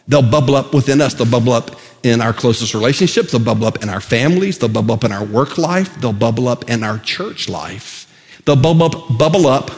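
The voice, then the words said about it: Very fast speech. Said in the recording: “I'm saying that so fast.”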